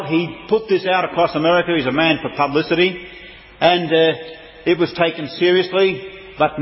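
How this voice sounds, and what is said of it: Usual voice. Nothing is said of it.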